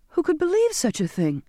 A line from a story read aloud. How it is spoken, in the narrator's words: I exclaimed